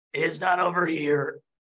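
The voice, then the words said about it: Raspy character voice. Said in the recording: “You hear a raspy voice”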